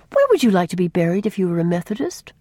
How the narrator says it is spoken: asked Faith cheerfully

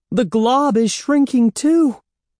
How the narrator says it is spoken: Andy cried

